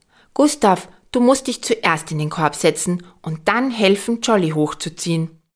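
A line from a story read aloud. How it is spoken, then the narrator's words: Calling from a wall. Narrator (German): Lisabella ruft von der Mauer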